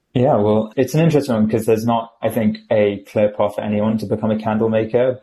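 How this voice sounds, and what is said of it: British accent. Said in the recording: “He's also British... I am British by accent and origination.”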